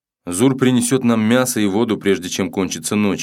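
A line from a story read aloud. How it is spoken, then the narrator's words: Plain. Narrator (Russian): ответил сын быка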